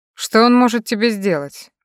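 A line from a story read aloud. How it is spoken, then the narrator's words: Snorted. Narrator (Russian): Коннор фыркнул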